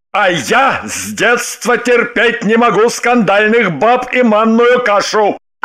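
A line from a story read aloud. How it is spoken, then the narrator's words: Desperate full-throated bark. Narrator (Russian): Отчаявшись ее остановить, во все горло гаркнул Семенов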